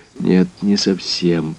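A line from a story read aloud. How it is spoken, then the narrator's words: Slow speech. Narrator (Russian): проговорил я медленно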